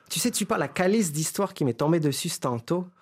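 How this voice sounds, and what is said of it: Mixed Quebecois and southern French accent. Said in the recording (French): “un petit mélange accent québécois et accent du Sud ... on entend bien Céline Dion”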